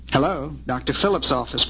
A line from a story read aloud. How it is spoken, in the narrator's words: Brenda answered